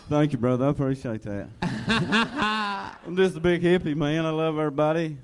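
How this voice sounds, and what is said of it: Strong, hard-to-understand regional accent. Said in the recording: “it's hard to understand your accent, by God”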